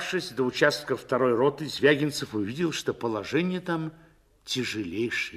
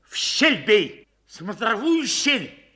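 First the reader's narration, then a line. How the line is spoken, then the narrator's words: Frantic scream. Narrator (Russian): истошно крикнул Звягинцев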